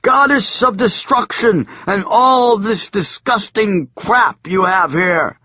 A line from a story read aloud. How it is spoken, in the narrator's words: I shouted again